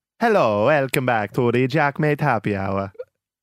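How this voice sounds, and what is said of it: Unconvincing attempted Italian accent. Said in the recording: “What was that? ... Italian. ... That was Italian. ... No.”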